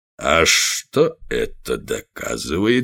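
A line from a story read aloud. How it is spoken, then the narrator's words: Soft, insinuating question. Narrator (Russian): спросил он мягким, вкрадчивым голосом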